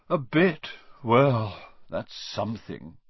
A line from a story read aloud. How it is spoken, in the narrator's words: Ronan sighed